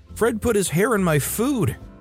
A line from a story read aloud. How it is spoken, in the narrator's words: yelled in horror